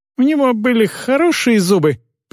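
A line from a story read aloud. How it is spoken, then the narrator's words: Squeaked. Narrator (Russian): пискнула Весли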